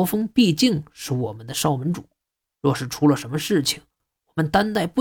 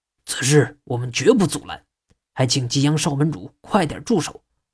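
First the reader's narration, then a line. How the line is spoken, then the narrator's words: Reluctant, through gritted teeth. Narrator (Chinese): 秦武一咬牙，点头道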